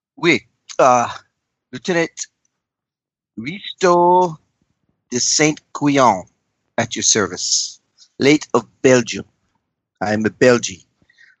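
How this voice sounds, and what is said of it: Obnoxious put-on accent. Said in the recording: “obnoxious accent that is annoying those around you”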